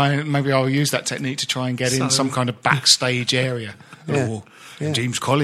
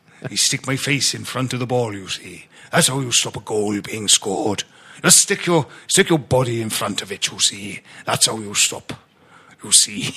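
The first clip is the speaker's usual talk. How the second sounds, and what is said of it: Put-on Welsh accent. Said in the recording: “I can only really do a Welsh accent if I put the words you see in, otherwise I can't.”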